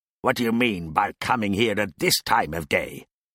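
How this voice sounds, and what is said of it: Gruff growling Scrooge voice. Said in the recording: “growled Scrooge, in his accustomed voice, as near as he could feign it.”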